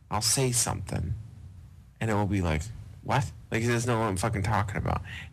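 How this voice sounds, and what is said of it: Boston accent. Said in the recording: “I have an accent ... It's that Boston accent.”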